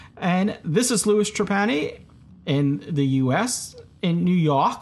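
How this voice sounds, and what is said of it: Usual voice. Nothing is said of it.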